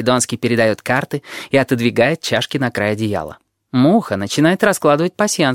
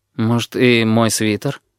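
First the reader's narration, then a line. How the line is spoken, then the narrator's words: Timid. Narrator (Russian): робко говорит лорд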